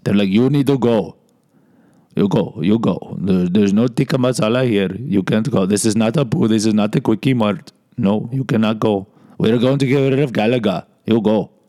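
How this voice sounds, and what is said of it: Put-on Indian accent. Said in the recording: “That's my Indian accent.”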